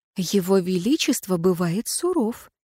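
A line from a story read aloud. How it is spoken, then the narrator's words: Confiding whisper. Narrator (Russian): доверительным шепотом сообщила я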